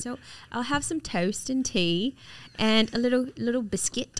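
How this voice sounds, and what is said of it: Put-on English accent. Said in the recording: “She's got a great English accent too... say your last meal again, but in your English accent.”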